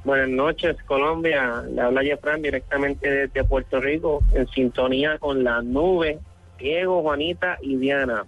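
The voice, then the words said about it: Regional Spanish accent. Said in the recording (Spanish): “ese acento ... nos enloquece”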